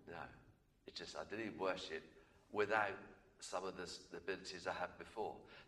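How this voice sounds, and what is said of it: Lower, slightly croaky voice. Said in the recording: “my voice is a little bit lower than normal, a bit croaky. I can't sing as high or anywhere near as strongly as before.”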